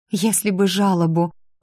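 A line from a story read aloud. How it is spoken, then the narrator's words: Heavy sigh. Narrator (Russian): тяжело вздохнула та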